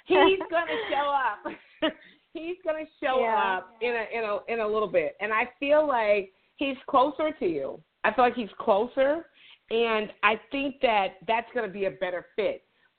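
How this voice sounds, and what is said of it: Southern drawl. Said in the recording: “I'm Southern. I have the little draw, that accent.”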